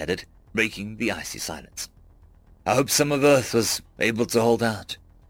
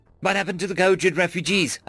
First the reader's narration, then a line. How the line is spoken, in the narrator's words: I blurted